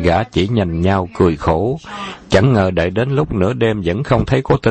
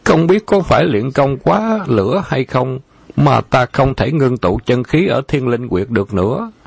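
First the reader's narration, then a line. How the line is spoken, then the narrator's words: Whimpering, near tears. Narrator (Vietnamese): Khâu Trọng mếu máo nói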